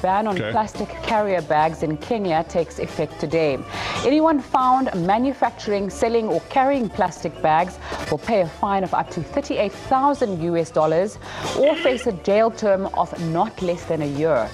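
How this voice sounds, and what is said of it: News reader with an accent. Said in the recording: “another news story with an accent for you”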